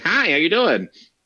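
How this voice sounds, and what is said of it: Stereotypical nerd voice. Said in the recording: “I have the standard nerd voice”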